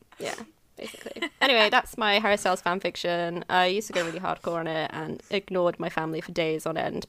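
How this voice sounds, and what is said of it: British accent, sounds bored. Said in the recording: “because I'm British, I sound really bored... Your super cool British accent makes you sound bored instead of embarrassed.”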